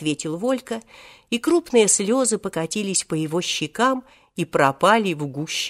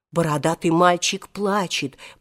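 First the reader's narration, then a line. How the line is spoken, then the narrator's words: Crowd whispering. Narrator (Russian): пошел шепот по всей толпе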